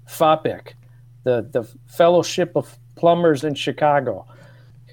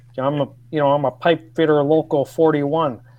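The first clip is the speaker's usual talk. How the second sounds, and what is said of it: Put-on Chicago South Side accent. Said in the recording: “I read it in the voice of what I would imagine was Chicago South Sider ... in Ohio, that accent was, you know, was really good ... But here in Chicago, you're like, really, dude?”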